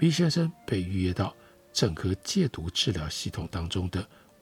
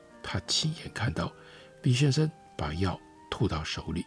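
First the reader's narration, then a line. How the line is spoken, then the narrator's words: Low whisper. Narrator (Chinese): 站在他身后的囚犯低声地对护理师说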